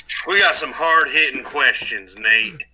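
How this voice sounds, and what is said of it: Put-on southern accent. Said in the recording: “Are you going back to a southern accent?”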